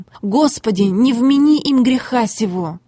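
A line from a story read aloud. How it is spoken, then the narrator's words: Loud exclamation. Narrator (Russian): воскликнул громким голосом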